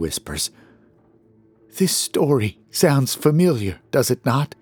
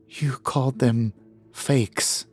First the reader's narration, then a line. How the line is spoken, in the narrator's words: Eliza murmurs quietly